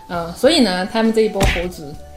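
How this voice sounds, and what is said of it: Regional accent, odd vowel in 猴子. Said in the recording (Chinese): “你这什么口音？”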